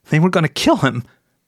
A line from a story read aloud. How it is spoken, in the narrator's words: whimpered